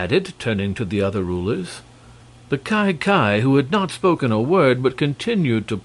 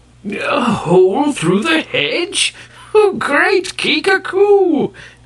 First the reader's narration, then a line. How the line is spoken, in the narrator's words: cried the gray-bearded Kai